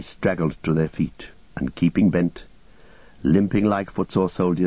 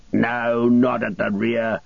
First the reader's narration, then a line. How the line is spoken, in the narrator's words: the slave driver shouted